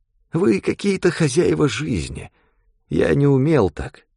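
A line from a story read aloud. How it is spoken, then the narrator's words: Sad old man. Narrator (Russian): грустно сказал старичок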